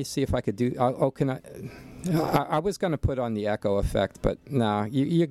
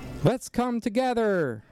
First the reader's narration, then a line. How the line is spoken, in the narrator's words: He shouted again